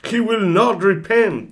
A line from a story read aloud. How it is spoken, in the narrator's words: shouted Arturo